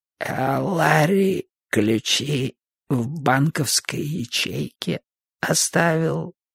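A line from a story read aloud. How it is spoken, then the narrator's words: Creaking voice. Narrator (Russian): проскрипела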